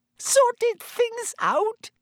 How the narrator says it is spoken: squealed Pettigrew, looking wildly about him once more

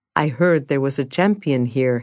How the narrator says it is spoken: he said

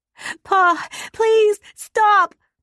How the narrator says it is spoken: Kaya cried out, then sobbed

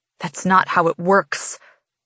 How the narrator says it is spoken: I hiss back

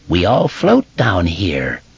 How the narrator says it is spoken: the mummy clown croaked

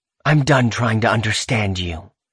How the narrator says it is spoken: she hisses

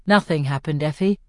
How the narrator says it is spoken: says Peter evenly

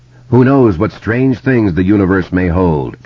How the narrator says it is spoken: Truman Bradley speculated

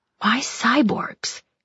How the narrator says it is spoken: He murmured

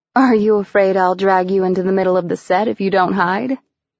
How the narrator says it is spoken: He chuckled

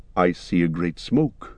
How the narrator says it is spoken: said Legolas

